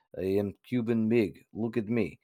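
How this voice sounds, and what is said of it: Exaggerated Russian-sounding Cuban accent. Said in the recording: “most Cuban accent ever... It's communist accent... It's the most Russian Cuban I've ever heard.”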